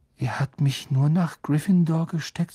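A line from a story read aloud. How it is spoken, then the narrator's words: Subdued, dejected voice. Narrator (German): sagte Harry mit gedrückter Stimme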